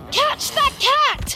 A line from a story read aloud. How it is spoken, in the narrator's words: Ron yelled